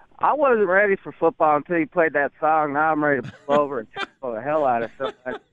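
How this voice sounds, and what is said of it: Speaks with a noticeable accent. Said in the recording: “Despite my accent, I actually am from Western New York, grew up in Buffalo”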